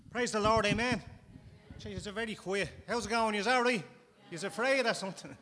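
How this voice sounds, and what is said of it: Irish accent. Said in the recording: “Is it my accent? ... my wife's not from Ireland”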